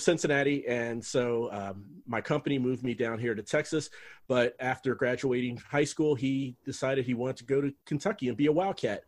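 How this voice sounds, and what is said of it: Standard American accent. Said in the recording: “How did you get out of Kentucky with a standard American accent? Perfect. ... Perfect standard American speech.”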